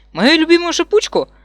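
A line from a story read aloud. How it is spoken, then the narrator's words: Excited question. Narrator (Russian): Взволнованно спрашиваю я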